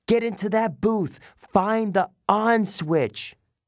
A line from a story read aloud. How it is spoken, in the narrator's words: I yelled